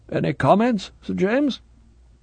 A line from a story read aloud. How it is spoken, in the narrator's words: a reluctant grunt at the other end of the telephone